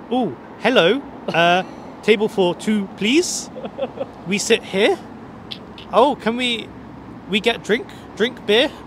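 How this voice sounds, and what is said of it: Weird anglicized German accent. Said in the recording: “this anglicized German that was just a very weird mix that made you sound like a German”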